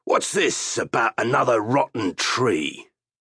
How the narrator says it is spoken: He growled like the bear he resembled and shouted up at Pug

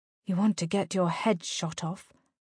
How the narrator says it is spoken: Rosalind muttered at his side

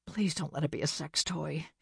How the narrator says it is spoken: she muttered under her breath

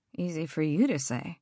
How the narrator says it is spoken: muttered under my breath

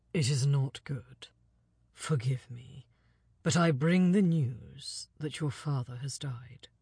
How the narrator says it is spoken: he said gravely

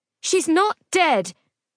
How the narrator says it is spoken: Phoenix's voice was almost a shout

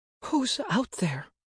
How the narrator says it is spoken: Quelf asked, her voice shaking

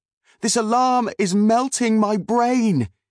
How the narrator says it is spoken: cried

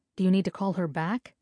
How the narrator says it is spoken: Hasina asked in a concerned tone

